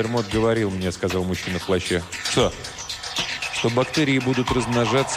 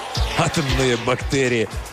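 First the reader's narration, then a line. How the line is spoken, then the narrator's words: Laugh, abruptly cut off. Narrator (Russian): рассмеялся, но тут же замолчал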